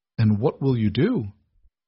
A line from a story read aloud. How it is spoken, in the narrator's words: she asked, her voice tight